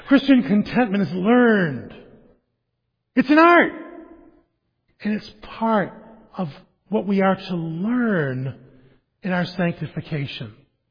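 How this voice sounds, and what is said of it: Speaker's noticeable accent. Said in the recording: “sorry for the accent”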